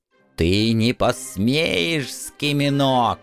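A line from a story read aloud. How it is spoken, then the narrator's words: Hissing old woman. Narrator (Russian): зашипела старуха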